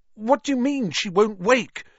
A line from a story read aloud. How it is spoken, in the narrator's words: Harry said desperately